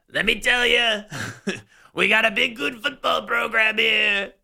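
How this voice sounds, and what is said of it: Imitates another person's voice. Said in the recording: “doing a crappy Trump impersonation”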